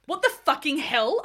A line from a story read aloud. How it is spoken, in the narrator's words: I asked angrily